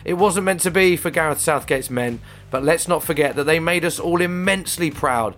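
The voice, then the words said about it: Slightly croaky voice. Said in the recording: “my voice is a little bit croaky as I was singing my heart out last night”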